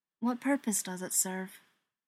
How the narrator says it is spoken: asks, politely, evenly

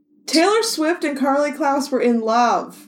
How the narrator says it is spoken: Chris shouted through the wall

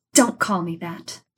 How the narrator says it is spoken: she snapped sharply

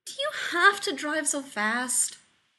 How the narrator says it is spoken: whined

